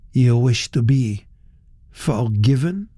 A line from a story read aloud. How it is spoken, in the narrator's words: he said